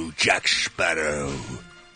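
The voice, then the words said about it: Davy Jones character voice. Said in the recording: “my Davy Jones impression”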